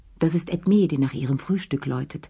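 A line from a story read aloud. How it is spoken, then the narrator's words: Plain. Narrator (German): sagte Madame Pelou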